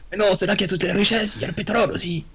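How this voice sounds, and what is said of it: Put-on Russian accent. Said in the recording (French): “t'as un accent russe maintenant”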